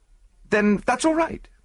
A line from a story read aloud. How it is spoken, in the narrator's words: I said hastily